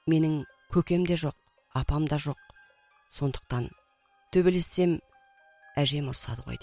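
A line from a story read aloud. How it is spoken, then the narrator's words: Plain. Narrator (Kazakh): деп қойды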